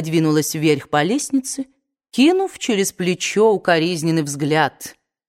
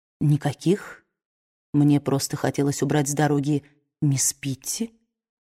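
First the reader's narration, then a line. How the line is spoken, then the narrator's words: Quiet speech. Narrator (Russian): тихо произнес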